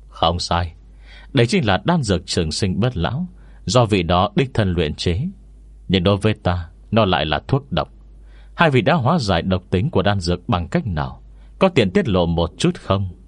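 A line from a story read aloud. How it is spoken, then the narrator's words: Smiling. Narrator (Vietnamese): Phùng Thiên Kỳ mỉm cười nói tiếp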